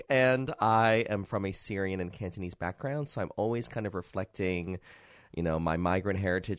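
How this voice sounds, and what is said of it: American accent. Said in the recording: “I am obviously American, if you can't hear from my accent.”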